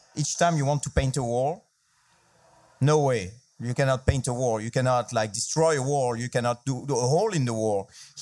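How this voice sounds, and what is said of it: French accent. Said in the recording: “I'm French, so I'm going to do it with a French accent”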